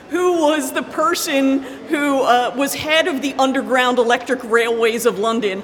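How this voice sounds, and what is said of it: Non-London, American accent. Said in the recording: “Your accent is not a London accent”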